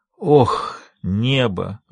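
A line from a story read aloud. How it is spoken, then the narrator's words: Breathless exclamation. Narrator (Russian): выдохнул Сэм Вердро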